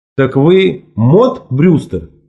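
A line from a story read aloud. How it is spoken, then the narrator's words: Slow, confident, accusing. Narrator (Russian): сказал я медленно и уверенно, как будто обвиняя ее в каком-нибудь преступлении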